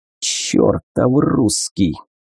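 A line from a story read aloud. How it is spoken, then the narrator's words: Angry hiss. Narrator (Russian): зло шипела Тина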